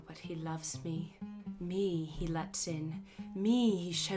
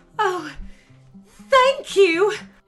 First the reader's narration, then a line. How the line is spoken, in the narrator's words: She cried out